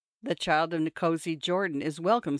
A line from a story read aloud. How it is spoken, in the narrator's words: said Chief Mishlanga